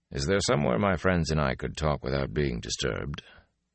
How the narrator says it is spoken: Tom added quietly

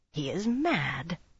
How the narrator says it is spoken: Tion growled

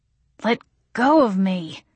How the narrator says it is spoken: I wheezed

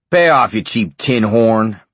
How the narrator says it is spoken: Bernhardt roared

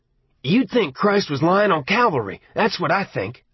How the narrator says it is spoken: Arnie said angrily

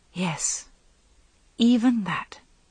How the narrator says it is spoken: The thought gave great pain, but inside herself she whispered

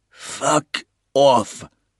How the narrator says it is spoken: the Belgian rasped, clenching his jaws in pain

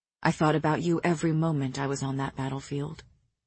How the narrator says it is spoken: he said softly

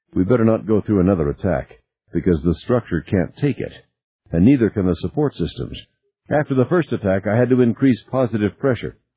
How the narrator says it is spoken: Fletcher said

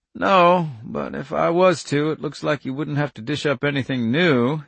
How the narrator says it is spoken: he said dryly

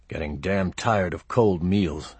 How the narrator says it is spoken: I muttered

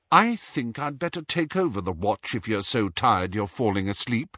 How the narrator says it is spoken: said Hermione coldly

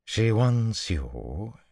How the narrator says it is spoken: she drawled peremptorily

